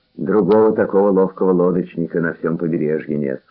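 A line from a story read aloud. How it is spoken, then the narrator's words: Plain. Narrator (Russian): сказал Мануэл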